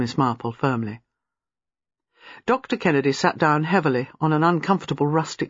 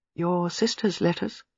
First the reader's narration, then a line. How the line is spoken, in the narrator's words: said quietly